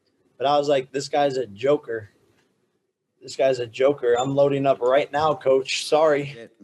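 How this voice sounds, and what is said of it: Breathless, voice nearly gone. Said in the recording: “I'm out of fucking breath. I'm out of, my voice is gone”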